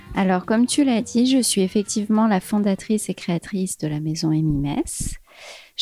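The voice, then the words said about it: Light singsong southern French accent. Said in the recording (French): “ton petit accent chantant ... modéré”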